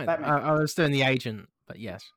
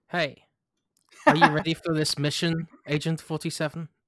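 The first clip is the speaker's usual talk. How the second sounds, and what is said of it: Impression of Agent 47. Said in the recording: “you were doing your impression of Agent 47”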